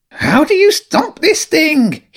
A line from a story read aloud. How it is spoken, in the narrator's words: shouted